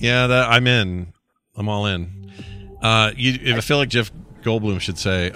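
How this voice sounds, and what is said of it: Usual voice. Nothing is said of it.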